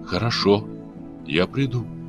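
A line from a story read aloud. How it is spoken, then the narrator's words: Quiet but firm. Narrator (Russian): тихо, но твердо сказала девушка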